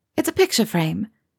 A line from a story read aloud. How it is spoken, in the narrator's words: she explained hastily